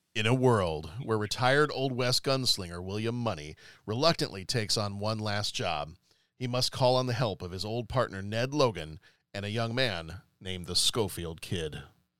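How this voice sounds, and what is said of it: Don LaFontaine movie-trailer voice impression. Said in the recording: “my best Don LaFontaine impersonation”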